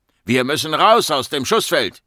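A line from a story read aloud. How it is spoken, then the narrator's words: Man calling out. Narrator (German): rief der Mann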